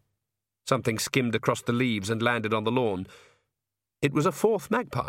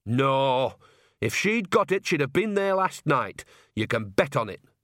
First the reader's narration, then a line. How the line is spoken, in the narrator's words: snapped Nanny